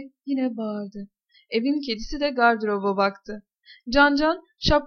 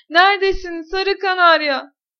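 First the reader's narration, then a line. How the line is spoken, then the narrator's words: Shouted. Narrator (Turkish): diye bağırdı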